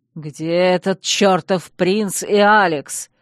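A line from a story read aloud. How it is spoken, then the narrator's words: Growling. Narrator (Russian): зарычал герцог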